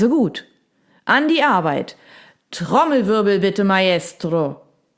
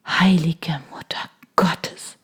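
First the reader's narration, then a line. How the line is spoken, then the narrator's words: Murmuring. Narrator (German): murmeln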